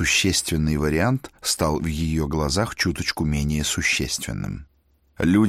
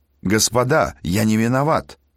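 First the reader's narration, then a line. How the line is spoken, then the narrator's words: Desperate wail. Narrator (Russian): наконец завопил он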